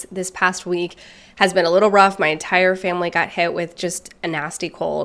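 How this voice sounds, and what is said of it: Congested, stuffy-nosed voice. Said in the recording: “I'm just a little bit congested here, as you might hear in my voice ... it's taking my voice a little bit of time to come back to normal”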